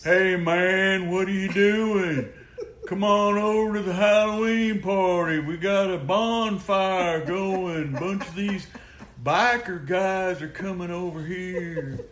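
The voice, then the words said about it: Imitates another person's voice. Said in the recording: “I'll do his voice”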